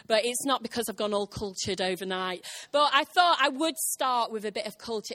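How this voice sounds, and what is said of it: Deeper voice, congested with cold. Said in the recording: “my voice is deeper as well? It's because I'm cold. I've got a cold”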